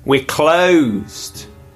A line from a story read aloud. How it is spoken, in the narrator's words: called out